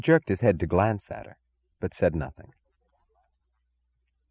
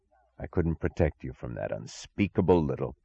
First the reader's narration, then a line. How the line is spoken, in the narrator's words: He said through his teeth, not as an answer, but as if the single thought battering his brain turned into sounds against his will